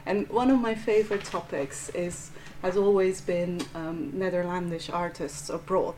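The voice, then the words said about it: Belgian Flemish accent. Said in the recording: “as you can probably tell from my accent, I'm Belgian, I'm Flemish”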